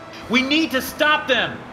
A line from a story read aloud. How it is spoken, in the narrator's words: shouted